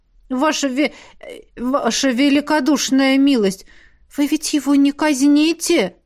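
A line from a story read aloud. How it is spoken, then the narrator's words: Pleading creature. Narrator (Russian): взмолился снежный дьявол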